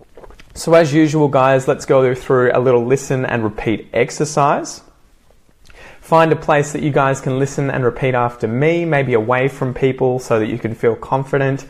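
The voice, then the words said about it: Australian accent. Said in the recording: “Try and repeat exactly as I say them if you want to work on your Aussie accent”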